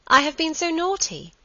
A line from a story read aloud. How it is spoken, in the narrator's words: she exclaimed